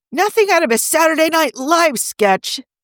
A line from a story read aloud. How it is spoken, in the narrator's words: Kavanaugh shrieked